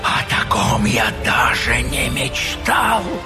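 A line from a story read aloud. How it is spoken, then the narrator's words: Whisper. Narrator (Russian): прошептал Гул'дан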